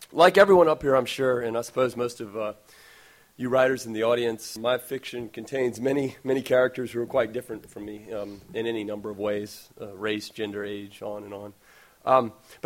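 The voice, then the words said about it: Hoarse, fading voice. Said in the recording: “I'm losing my voice as well.”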